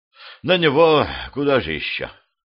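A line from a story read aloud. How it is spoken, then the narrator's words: Sighing. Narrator (Russian): вздохнул Баженов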